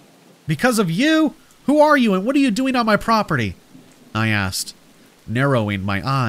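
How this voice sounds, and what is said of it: Usual voice. Nothing is said of it.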